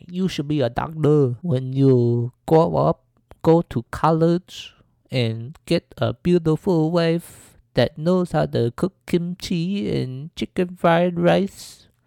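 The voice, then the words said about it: Imitated old Asian woman accent. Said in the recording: “My old Asian lady accent is horrible ... I'm sorry if this Asian lady accent is terrible.”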